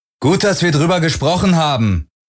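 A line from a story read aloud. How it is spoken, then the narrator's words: Calling after someone. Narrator (German): rief Parker Garland nach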